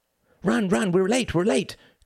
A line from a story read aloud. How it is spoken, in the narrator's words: cried Mr